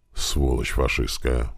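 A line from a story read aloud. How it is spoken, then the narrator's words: Soldier muttering. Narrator (Russian): бормотал низкорослый солдат из-под города Пскова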